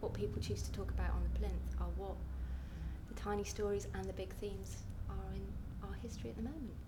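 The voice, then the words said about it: Scottish accent. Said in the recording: “I'm Scottish, as you can tell from the accent.”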